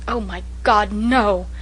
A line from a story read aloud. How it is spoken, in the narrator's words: exclaimed Walter passionately